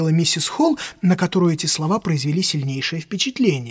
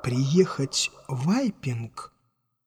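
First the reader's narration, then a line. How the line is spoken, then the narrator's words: Slow, careful words. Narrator (Russian): продолжал он медленно, видимо, тщательно подбирая слова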